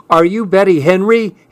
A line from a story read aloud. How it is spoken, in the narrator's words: He yelled